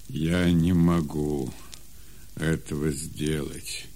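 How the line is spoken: Sad reply. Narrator (Russian): печально отвечал Исаак

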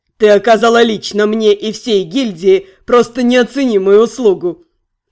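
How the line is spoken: Sly chuckle. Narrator (Russian): Ротан лукаво хмыкнул

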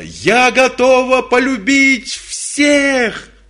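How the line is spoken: Shouting. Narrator (Russian): она закричала

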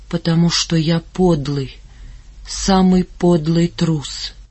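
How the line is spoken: Barely audible whisper. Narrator (Russian): тихо-тихо произнес, одними губами прошептал

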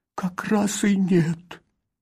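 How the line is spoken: Moaning. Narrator (Russian): простонал

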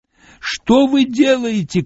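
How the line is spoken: Old woman shouting. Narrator (Russian): кричала старуха

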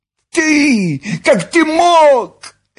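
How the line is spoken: Shrill squeal. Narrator (Russian): взвизгнула Нюша

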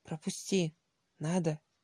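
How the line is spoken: Stern businesslike. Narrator (Russian): сурово деловым тоном ответил Сергей

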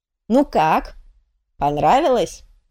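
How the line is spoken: Cheerful question. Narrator (Russian): весело осведомился тот

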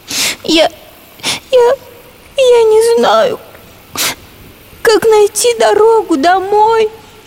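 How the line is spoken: Tearful explanation. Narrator (Russian): Сквозь слезы объяснила наша коровка

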